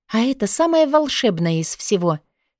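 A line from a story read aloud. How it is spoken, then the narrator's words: Happy sigh. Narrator (Russian): счастливо вздохнула я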